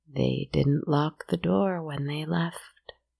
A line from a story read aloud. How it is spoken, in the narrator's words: the hag croaked